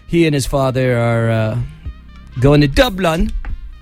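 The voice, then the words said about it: Poorly done put-on accent, English-sounding. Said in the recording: “That wasn't the right accent... Not at all... Close... I'm really bad at accents... That was more of like an English mix.”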